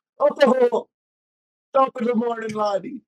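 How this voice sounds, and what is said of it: Good put-on Irish accent. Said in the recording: “do your best Irish accent ... Damn, you're good at accents.”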